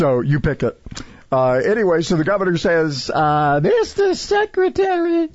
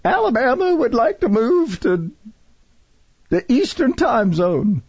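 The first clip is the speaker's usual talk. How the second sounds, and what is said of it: Imitates another person's voice, poorly. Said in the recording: “I'm doing a terrible impersonation. ... You're not shaking enough.”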